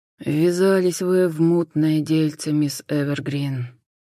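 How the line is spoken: Sighing. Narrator (Russian): вздохнул Хосе

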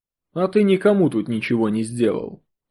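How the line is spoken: Calm reply. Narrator (Russian): Спокойно проследовал ответ

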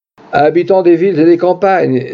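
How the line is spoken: Exclaiming. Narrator (French): s'écria l'humble barnum

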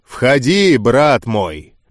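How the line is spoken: Booming rolling voice. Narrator (Russian): Раскатисто прогремел голос гроссмейстера

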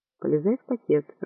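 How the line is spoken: Whisper through barely parted lips. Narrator (Russian): прошептал он, почти не разжимая губ

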